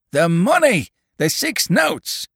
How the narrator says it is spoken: roared the farmer

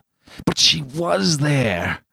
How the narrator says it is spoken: he groaned to himself

